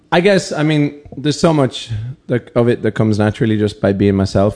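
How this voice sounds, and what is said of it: Irish accent. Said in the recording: “singing in my accent, and I'm just kind of like, yeah, it's the only one I have”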